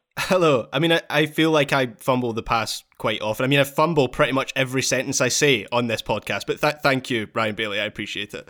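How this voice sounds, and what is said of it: Scottish accent. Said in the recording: “That's just your accent. ... our man in Glasgow”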